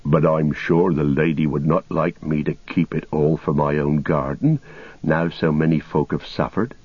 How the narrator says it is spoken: said Sam

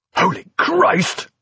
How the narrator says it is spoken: cried Prothero, half a shout of terror, half a gasp of despair

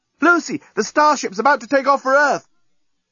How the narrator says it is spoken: the journalist, shouting from the breakwater

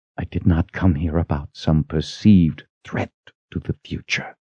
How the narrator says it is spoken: she whispered

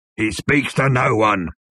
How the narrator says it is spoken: bellowed the bodyguard

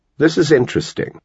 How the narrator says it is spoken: said

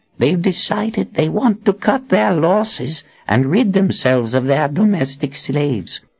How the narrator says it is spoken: Zed whispered to Anne

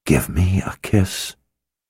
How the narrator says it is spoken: Warren had whispered

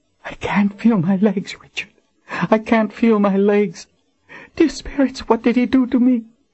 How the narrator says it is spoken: Her voice quivered with panic

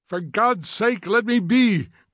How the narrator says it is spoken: cried Montag passionately

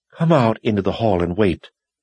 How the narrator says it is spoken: commanded in a shaky voice

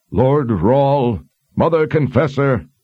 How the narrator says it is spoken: shouted out over the crowd

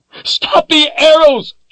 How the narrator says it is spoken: she yelled angrily

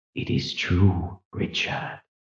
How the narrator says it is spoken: whispered

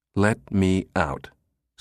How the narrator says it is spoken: Susan said as evenly as possible, feeling a sudden twinge of danger

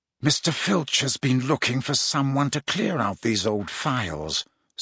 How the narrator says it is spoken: said Snape softly

